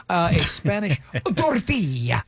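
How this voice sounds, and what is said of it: Put-on Spanish news anchor accent. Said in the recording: “I'm doing it like the Hispanic news anchor”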